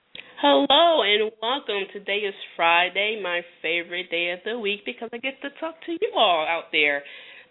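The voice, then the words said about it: Congested, slightly distant-sounding voice. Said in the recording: “I'm battling allergies right now, so you have to excuse my voice if I seem to be a little bit distant today.”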